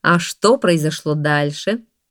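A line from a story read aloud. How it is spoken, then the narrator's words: Laughing question. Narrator (Russian): Султан рассмеялся и спросил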